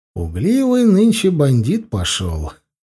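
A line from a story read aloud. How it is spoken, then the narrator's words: Displeased grumbling. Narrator (Russian): недовольно проворчал я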